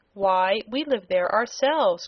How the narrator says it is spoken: cried Trot

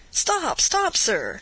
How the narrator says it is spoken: cried Candide

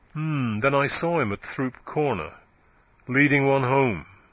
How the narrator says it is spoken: said Venn dryly

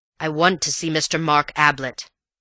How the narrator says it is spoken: he growled

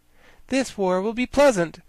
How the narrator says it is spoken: replied the girl cheerfully

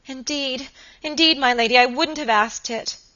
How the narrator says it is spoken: sobbed Phoebe Marks

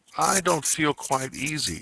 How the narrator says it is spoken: said one

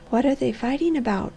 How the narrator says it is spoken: she whispered

